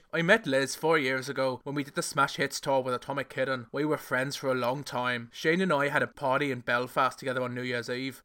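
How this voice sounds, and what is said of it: Put-on Irish accent. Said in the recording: “and of course he is Irish ... that was my Irish accent.”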